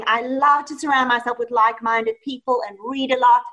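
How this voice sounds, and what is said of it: Speaks with a noticeable accent. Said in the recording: “I hear your accent”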